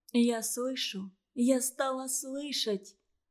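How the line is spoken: Hurried whisper. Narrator (Russian): торопливо шептала Наташа

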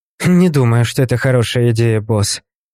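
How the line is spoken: Grumbled. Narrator (Russian): проворчала Кэти

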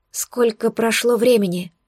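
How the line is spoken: Hoarse strained voice. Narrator (Russian): выдавила я охрипшим голосом

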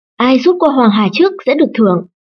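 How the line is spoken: Loud shout. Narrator (Vietnamese): Tuần Lâm Phủ liền hét lớn

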